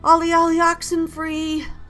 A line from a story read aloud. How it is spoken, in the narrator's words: I called out, voice shaking